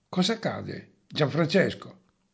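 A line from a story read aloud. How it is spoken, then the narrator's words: Sullen question. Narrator (Italian): domandò con un tono ancora corrucciato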